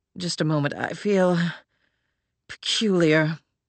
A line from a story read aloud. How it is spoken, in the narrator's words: he muttered through clenched teeth